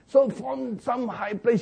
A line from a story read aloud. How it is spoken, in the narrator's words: he shouted, at David